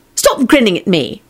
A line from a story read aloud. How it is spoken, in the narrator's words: snapped Elizabeth